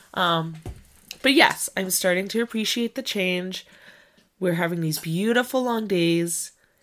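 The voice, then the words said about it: Congested, stuffy-nosed voice. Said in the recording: “I still feel a little bit uh, um, kind of stuffed up, stuffy nose. You can probably tell it in my voice.”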